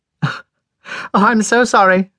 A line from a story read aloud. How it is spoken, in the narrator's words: she cried back